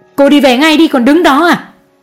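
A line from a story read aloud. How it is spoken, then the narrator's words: Shouting. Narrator (Vietnamese): Mẹ chú Đại hét lên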